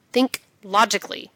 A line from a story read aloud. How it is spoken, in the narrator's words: he tells himself firmly